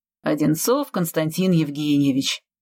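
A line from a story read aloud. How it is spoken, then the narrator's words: Plain. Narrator (Russian): ответил я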